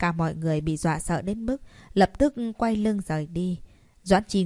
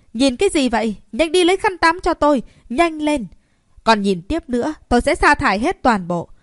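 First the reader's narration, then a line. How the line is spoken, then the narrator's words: Angry shout. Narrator (Vietnamese): tức giận mà hét lên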